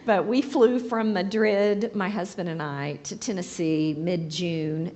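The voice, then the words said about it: Hoarse voice. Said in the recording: “Please excuse the hoarseness. ... I'm still a little sneezy and hoarse from that.”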